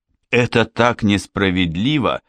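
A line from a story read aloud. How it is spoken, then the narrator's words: Muttering. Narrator (Russian): пробормотала она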